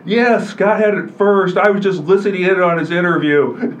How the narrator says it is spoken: he says in his big booming voice back to the Quad City Times

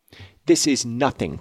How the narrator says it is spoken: cried she

